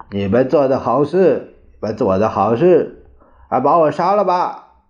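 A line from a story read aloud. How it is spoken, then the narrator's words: Sudden angry shout. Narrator (Chinese): 猛地，蒋介石拍着床沿叫道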